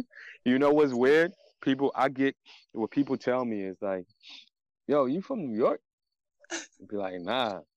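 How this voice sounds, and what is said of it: Mixed Ghanaian and Philly accent. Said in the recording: “That's why you have an accent ... everybody always tell me that I have an accent ... when you take a Ghanaian accent and a Philly accent, it sounds like you're from New York”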